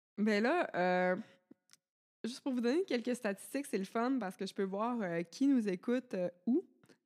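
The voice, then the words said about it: Canadian French accent. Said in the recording (French): “notre accent vous tape pas trop sur les nerfs... ton accent est tellement cute”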